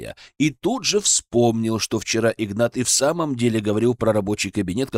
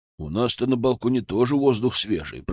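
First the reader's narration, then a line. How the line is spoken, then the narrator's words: Old man grumbling. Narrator (Russian): проворчал старик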